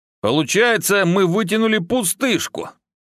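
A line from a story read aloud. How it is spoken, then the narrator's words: Irritated exhale. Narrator (Russian): раздраженно выдохнул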